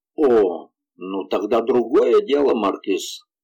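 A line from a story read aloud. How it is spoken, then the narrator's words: Cold. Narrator (Russian): холодно ответил Гастон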